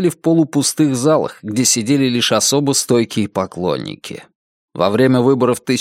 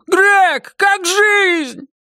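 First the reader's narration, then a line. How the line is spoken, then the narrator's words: Frenzied shout. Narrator (Russian): Кто-то исступленно выкрикнул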